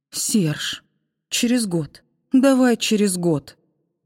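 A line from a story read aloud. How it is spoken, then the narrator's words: Pleading. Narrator (Russian): взмолилась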